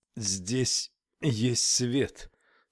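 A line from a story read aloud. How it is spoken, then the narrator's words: Strained, with effort. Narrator (Russian): с трудом выдавила Тесла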